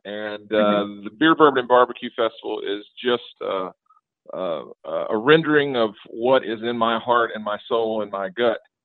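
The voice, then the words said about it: Southern US twang accent. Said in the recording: “the horrible Southern twang in my voice”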